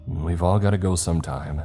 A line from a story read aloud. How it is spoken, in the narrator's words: I said grimly